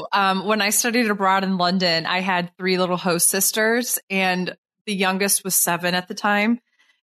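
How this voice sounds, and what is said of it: Flat nasal Midwestern-Canadian accent. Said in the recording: “I sound like a mix of a Canadian and Minnesotan and also like Northeastern, just flat vowel nasal.”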